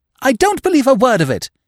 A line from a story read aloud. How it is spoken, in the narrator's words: she cried